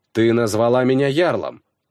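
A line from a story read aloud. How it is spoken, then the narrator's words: Plain. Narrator (Russian): сказал я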